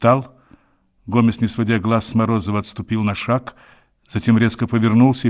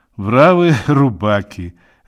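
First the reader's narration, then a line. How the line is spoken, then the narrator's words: Laughing. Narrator (Russian): Равик рассмеялся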